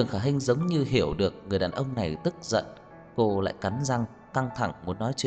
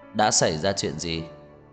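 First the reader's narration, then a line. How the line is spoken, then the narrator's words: Cold voice from behind. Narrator (Vietnamese): Một giọng nói lạnh lùng từ phía sau truyền đến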